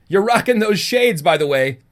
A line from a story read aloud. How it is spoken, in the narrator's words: Cash called out after him